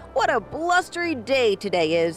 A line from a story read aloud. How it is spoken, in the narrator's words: he chuckled happily